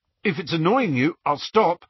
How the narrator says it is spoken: he told Hermione nervously

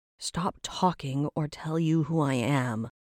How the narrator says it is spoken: she groaned

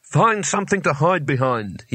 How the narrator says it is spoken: he barked, with his voice shaking only slightly

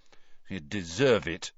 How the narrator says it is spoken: Cedric muttered

